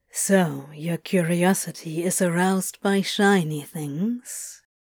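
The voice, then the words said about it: Low voice. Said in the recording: “in a low voice”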